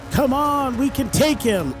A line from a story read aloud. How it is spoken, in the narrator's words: I yell out